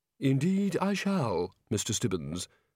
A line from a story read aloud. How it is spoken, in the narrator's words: said calmly